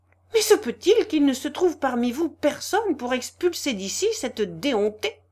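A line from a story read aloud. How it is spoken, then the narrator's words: Sudden cry, trembling anger. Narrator (French): s'écria brusquement Varia, toute tremblante de colère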